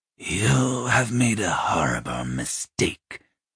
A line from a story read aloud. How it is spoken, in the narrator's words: rasped